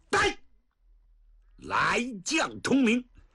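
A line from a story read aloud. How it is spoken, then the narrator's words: Loud short shout. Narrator (Chinese): 薛丁山高声短喝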